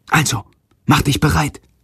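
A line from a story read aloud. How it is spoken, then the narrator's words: Whisper. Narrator (German): flüstert Jendrik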